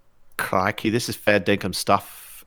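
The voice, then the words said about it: Poor Australian accent, Irish tinge. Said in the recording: “that's got a little bit of Irish in there ... You can't even do a bad Australian accent”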